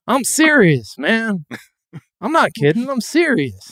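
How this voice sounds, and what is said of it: Imitates another person's voice. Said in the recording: “Good impression.”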